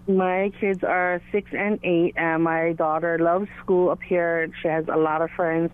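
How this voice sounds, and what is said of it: Hawaiian accent. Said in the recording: “I'm from Hawaii ... they can tell by my accent that I'm not from here”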